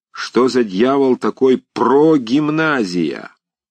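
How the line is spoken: Drunken furious shout. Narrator (Russian): Приказчик Вася до того, наконец, нализался, что начал фыркать и говорить в тарелку, и вдруг как бешеный закричал

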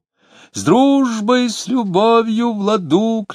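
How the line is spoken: Tenor shouting over noise. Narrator (Russian): кричал тенор, преодолевая шум

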